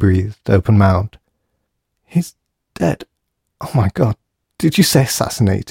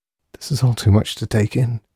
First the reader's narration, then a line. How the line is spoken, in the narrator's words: she said quietly